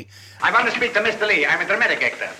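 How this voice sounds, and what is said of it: Put-on actorly foreign accent. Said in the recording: “Groucho begins this scene with an accent, which he drops pretty quickly ... a little bit of that German inflection ... putting on a sort of actorly accent there, that maybe he's being Russian”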